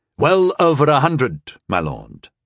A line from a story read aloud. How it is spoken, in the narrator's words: my castellan replied smoothly